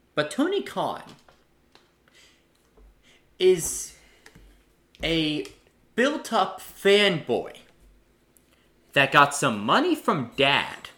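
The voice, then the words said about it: Angry, heated ranting voice. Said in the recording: “Why do you sound so angry?”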